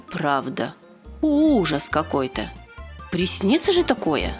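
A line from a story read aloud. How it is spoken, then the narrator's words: Slightly shaky voice. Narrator (Russian): Он почти не дрожащим голосом сказал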